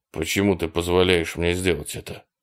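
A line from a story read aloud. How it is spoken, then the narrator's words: Plain. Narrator (Russian): спросил Боб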